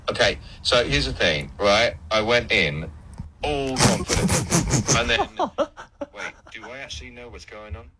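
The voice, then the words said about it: Imitates another person's voice. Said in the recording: “A bit buzzy ... the accent wasn't quite there ... Impersonation”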